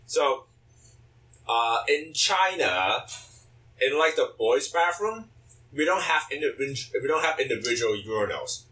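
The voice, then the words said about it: Chinese accent. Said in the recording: “he has a funny accent, so he's Chinese. ... yeah, yes, Chinese. I have a Chinese accent.”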